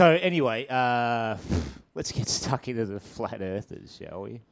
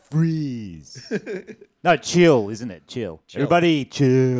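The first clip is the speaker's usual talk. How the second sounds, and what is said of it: Imitates a movie villain's voice. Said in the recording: “He played Mr. Freeze. ... That was my impression.”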